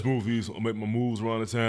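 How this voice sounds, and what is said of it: Deep smooth radio-style voice. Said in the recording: “This voice. Yo, best podcast voice ever.”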